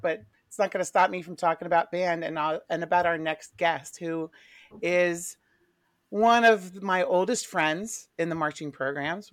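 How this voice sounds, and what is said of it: Slightly hoarse, froggy voice. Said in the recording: “I'm a little hoarse... I've got a little froggy throat”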